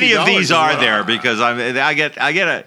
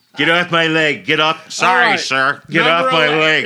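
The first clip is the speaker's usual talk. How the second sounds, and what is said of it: Imitates another person's voice. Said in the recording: “This is my Mike Pence impression.”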